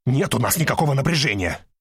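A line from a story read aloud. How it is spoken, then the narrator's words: Too loud, too fast, tense. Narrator (Russian): Говорю я чересчур громко и чересчур быстро, так что начинает казаться, что напряжение определенно есть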